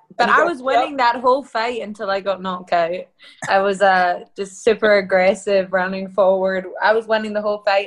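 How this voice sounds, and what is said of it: Hybrid Scottish-Australian accent. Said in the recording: “your accent is Scottish, am I wrong? ... I was born in Scotland and I lived there for a long time, and we moved to Australia when I was young, and now I just have this sort of hybrid accent”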